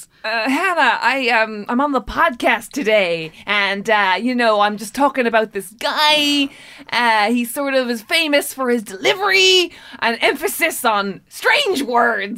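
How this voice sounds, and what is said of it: Poor Jeff Goldblum impression. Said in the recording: “worst Jeff Goldblum impression ever ... Christopher Walken having a stroke”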